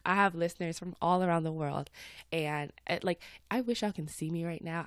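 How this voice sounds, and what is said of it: Slightly stuffed-up, congested voice. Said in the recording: “I do sound a little stuffed up. It's a little chilly this morning”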